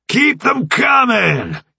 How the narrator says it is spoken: Jones yelled

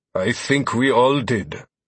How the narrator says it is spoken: Thorn grunted

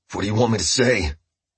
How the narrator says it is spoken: Walter choked the words out

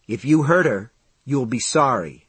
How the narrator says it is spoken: David said

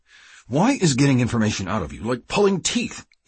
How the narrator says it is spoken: He asked angrily

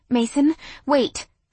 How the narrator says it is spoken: pleaded

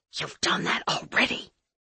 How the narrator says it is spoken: the witch whispered

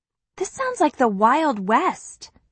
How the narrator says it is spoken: I mutter

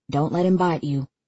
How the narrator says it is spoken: Easton murmurs in my ear

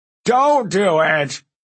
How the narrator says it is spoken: Ephialtes wailed

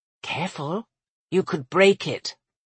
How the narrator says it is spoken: she leaned close to whisper

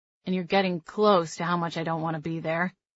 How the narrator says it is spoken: Miles said dryly

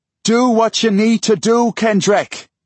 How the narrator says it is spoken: yells Brian

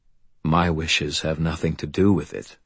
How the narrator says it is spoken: he said calmly

